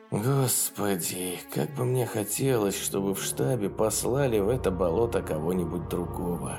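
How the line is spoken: Sighing, anger gone. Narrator (Russian): Вздохнул он, но ярости в его голосе уже не было

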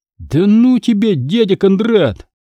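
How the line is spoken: Laughing. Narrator (Russian): Посмеялись

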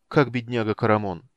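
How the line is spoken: Mournful inquiry. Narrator (Russian): осведомился светлый меч таким скорбным тоном, словно стоял у одра умирающего

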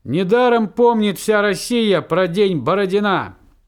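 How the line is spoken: Loud speech. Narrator (Russian): Я громко говорю

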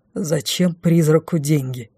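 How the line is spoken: Contemptuous snort. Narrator (Russian): презрительно фыркнул Дефос

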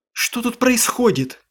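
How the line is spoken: Woman's exclamation. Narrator (Russian): воскликнула женщина

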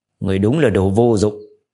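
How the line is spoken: Cold. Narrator (Vietnamese): Khương Hoàng lạnh lùng nói

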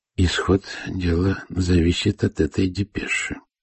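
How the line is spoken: Quiet remark, envoy. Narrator (Russian): негромко заметил посланник

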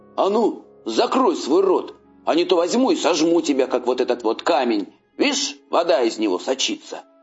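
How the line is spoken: Shouting. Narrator (Russian): крикнул он троллю

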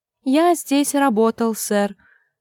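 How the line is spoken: Timid reply. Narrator (Russian): робко отозвался Турнепс

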